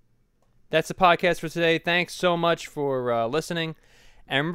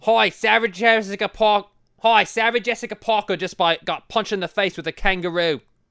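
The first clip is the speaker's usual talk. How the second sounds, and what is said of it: Bad put-on Australian accent. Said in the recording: “My Australian accent is really bad today... It's more of an Irish accent”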